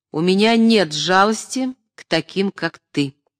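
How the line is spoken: Stern, resolute. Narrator (Russian): решительно произнес

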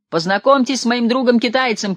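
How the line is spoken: Shouting. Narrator (Russian): кричал Егор

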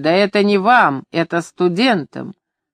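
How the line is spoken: Laughing loudly while speaking. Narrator (Russian): Он хохотал, говоря

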